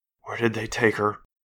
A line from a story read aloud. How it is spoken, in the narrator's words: she asked shakily